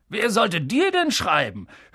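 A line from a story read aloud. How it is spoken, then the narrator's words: Sneering. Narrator (German): höhnte Onkel Vernon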